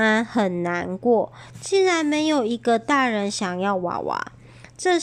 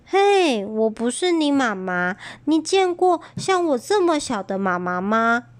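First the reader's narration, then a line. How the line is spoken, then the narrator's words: Sighing. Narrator (Chinese): 安安叹口气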